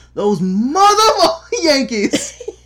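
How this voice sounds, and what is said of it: Loud shouted imitation of another's voice. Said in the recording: “That went right into the red. ... I blew out somebody's eardrums ... With my terrible Samuel L. Jackson impersonation.”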